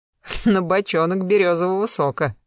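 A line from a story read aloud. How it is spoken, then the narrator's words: Cheerful chuckle. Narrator (Russian): весело хохотнул Фирс Львович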